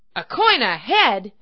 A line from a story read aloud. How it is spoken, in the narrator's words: cried the citizens